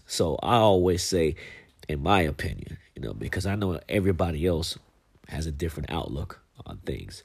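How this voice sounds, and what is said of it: Congested, stuffy-nosed voice. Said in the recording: “I have a little cold, so my nose is kind of stopped up”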